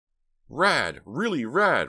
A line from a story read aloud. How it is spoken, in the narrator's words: Ricky shouted, his idea of a funny comment